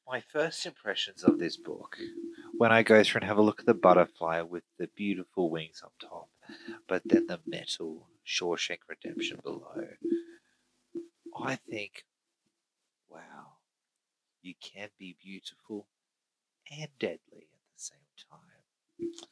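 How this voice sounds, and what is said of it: Grand nature-documentary narrator voice. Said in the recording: “you're not David Attenborough ... sounding less like a book review and more like a David Attenborough special ... Why are you speaking like that? ... Stop talking like an emperor.”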